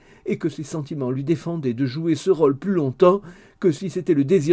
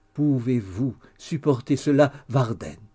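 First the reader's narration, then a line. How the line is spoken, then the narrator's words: Solemn voice. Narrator (French): dit sa femme d'une voix solennelle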